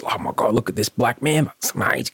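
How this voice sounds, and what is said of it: Impression of excited father. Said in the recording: “That's a great impression, mate. ... it's a terrible impression.”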